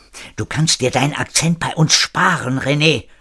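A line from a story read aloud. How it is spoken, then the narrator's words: Hissing. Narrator (German): fauchte Marina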